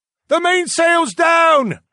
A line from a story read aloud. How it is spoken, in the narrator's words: I heard a man shout